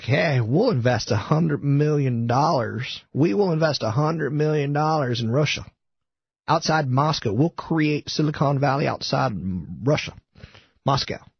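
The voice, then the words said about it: Southern, slightly feminine voice impression. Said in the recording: “my John Chambers impression. It's not very good, but he's kind of a southern dude on the feminine side.”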